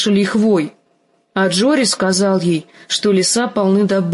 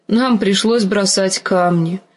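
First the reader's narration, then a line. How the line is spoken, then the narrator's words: Unhappy voice. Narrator (Russian): сказала Ария несчастным голосом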